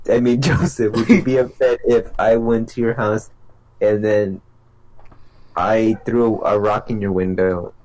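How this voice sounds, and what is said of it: Imitates another person's voice. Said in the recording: “my impression of Gerardo. I'm gonna be Gerardo now.”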